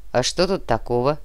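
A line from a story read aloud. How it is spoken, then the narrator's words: Cranky grumble. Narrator (Russian): сварливо проворчал Фома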